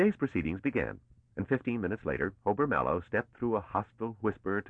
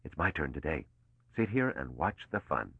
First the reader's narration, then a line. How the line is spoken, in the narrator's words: Mallow whispered